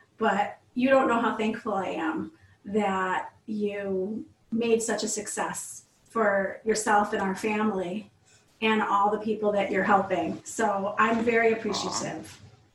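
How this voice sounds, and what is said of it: Teary, emotional voice. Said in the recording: “I'm all teary ... Me all emotional.”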